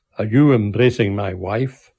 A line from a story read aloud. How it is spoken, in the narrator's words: with a tremendous, jolly laugh